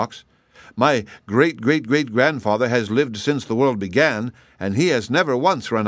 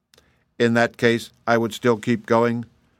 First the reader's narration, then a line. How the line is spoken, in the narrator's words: remarked TikTok calmly